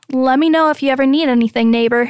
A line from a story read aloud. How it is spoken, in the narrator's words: he says quickly